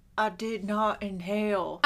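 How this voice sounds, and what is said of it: Imitates another person's voice. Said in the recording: “did you like my Bill Clinton impression? ... It was really good.”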